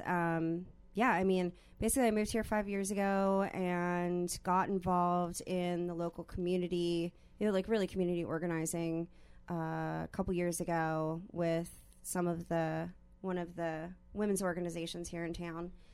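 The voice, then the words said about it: Philadelphia-area American accent. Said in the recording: “you'll hear it in my voice. I'm from outside of Philadelphia, and so I have a funny accent”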